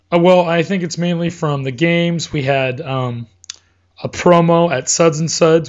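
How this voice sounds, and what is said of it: Slightly hoarse voice. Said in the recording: “My voice is still recovering from the last couple weeks. So I'm still a little hoarse. ... So voice is still a little hammered.”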